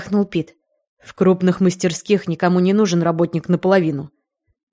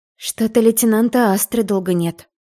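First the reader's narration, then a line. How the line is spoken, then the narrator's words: Sighing. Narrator (Russian): вздохнула я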